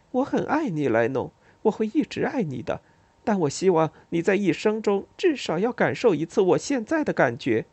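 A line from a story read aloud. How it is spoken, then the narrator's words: Smiling. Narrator (Chinese): 微笑着对我说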